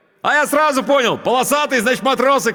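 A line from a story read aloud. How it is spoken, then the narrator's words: Shouting over engine noise. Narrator (Russian): крикнул он, стараясь перекрыть шум мотора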